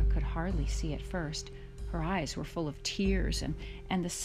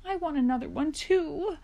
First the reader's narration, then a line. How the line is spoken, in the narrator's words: Laura sobbed loudly